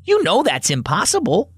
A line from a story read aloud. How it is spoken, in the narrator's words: Ruby exclaimed